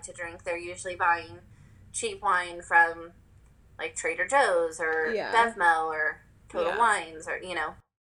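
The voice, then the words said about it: Slightly weird, unwell-sounding voice. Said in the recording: “my voice is a little weird. I think I either have allergies or I'm getting strep”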